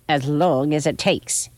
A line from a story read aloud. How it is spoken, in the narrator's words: she snapped back